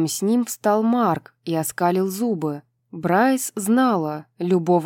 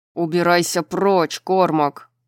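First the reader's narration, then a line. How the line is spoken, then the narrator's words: Growling. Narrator (Russian): прорычал Деклан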